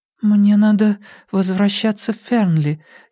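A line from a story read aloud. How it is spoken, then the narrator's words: Uncertain, hesitant. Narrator (Russian): неуверенно проговорила Урсула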